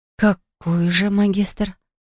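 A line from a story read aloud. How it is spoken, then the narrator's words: Whisper. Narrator (Russian): шепнула я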